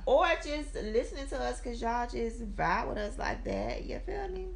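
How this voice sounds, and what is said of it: Hoarse, fading voice. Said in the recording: “As you can hear it in my voice is going away”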